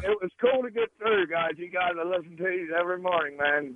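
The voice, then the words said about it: Southern accent with a drawl. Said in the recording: “do you have a southern accent? ... You almost have to have a drawl.”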